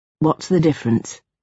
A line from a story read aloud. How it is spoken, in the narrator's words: Lieutenant Orne said, so quietly it didn't seem like a break in the silence